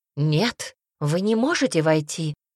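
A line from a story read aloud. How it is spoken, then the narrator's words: Exclaimed. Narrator (Russian): воскликнула Хейда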